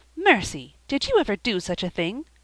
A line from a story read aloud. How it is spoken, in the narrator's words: exclaimed in horror